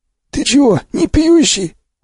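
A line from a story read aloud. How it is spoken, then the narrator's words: Surprised hoarse voice. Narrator (Russian): удивился сиплый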